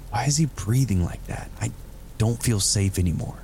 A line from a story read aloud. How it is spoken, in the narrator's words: Martin whispered to me